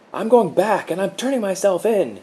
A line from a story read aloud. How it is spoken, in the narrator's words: he yelled